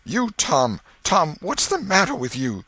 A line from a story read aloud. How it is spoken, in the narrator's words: she gasped out